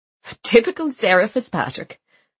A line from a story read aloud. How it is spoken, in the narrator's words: Aisling laughed